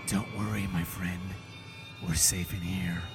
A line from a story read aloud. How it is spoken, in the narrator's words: it whispers back